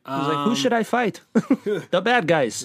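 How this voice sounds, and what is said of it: Weird put-on accent. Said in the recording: “That's weird accents we're doing.”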